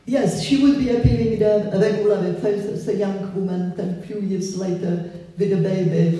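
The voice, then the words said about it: Noticeable foreign accent in English. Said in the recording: “he would recognize my accent ... I never could get rid of my accent”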